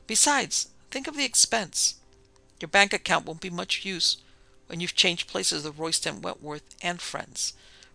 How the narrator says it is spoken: Francis retorted grimly

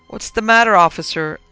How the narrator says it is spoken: I asked nervously

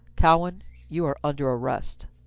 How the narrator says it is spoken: Fossey said in a low, hard voice, like iron become sound

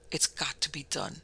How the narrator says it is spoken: he said through clenched teeth

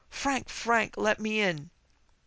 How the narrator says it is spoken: a little shrill voice outside his door, urgently pleading

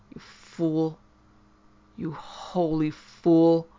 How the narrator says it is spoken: growled the other

